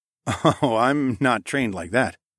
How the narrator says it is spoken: I chuckled, as a wave of relief washed over me

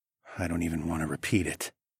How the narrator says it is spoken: I muttered

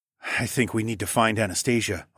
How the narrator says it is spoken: I murmured

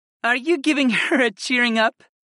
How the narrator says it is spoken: Freya giggled

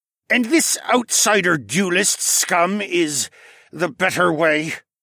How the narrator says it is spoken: the lizard man scoffed, but his voice cracked weakly

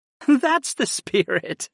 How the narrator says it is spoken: Arwen chuckled

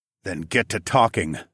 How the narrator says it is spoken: I growled

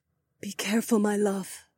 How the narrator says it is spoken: Aliona whispered

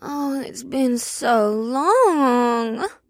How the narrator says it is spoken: whined

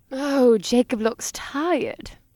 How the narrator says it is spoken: Libidine cooed from the bed

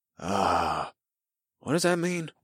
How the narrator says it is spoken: I whispered to Ahuara

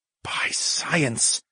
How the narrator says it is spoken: hissed through my teeth

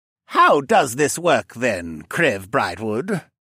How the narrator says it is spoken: Aiken asked in his greedy little voice

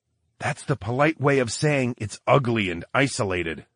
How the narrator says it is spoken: whispered

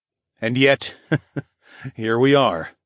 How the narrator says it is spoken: chuckled

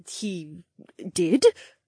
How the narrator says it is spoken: Helmy replied in a halting voice

